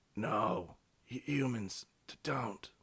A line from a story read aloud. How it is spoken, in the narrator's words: He moaned